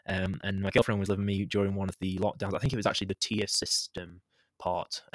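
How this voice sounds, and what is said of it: British accent. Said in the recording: “just in case you don't know from the accent, I'm in the UK”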